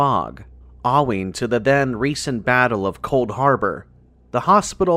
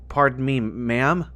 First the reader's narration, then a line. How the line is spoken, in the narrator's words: I said